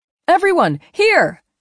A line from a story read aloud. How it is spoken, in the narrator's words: she called out to the Ewoks